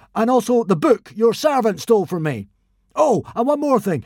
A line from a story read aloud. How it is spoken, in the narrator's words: cried Hiccup